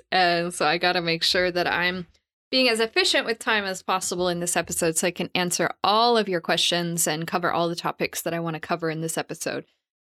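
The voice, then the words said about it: Strained voice, losing voice. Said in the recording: “I talked a lot yesterday, so I'm kind of losing my voice.”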